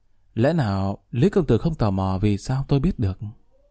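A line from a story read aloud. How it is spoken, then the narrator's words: Smiling question. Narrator (Vietnamese): Bạch Thiền Dạ mỉm cười hỏi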